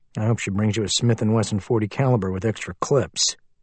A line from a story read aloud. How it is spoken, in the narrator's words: Liam muttered